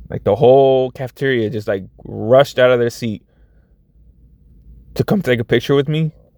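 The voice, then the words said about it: Choked-up, emotional voice. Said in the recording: “I'm getting choked up, guys.”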